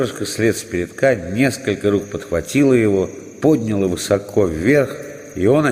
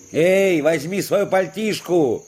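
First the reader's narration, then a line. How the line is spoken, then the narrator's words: Distant shout from below. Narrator (Russian): крикнул где-то далеко внизу Дениска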